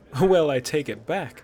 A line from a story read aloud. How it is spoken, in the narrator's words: Ayla said, chuckling